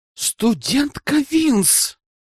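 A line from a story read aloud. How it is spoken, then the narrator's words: Hissed. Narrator (Russian): прошипел я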